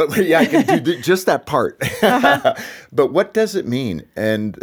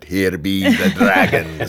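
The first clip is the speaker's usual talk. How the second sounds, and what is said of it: Put-on brogue. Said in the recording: “let me give my brogue to that”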